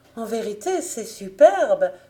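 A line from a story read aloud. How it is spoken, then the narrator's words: Overjoyed exclamation. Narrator (French): s'écria-t-elle au comble de la joie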